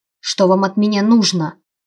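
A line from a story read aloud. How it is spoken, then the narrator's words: Snapping retort. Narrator (Russian): Огрызнулась я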